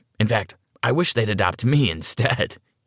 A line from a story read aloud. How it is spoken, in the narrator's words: he chuckled